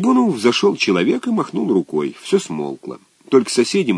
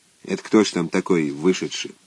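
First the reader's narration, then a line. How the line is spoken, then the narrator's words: Quiet question. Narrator (Russian): первый сосед тихо спросил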